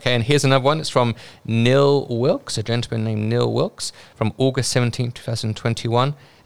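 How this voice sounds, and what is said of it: British accent. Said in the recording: “Took a while to get used to his British accent ... I'm glad that Neil has become accustomed to my British accent.”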